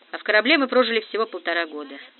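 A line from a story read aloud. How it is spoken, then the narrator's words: Mechanical, absent tone. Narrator (Russian): сказал Грант машинально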